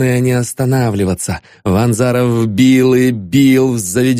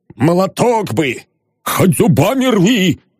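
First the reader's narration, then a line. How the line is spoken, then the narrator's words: Shouting voices. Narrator (Russian): закричали над ним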